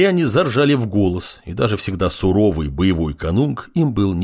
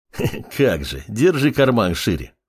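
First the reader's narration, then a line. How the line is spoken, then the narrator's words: Short laugh. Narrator (Russian): хохотнул Дариус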